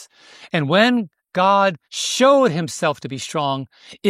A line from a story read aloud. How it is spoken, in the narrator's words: Israel cried